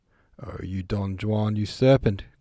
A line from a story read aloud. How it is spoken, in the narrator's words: cried several voices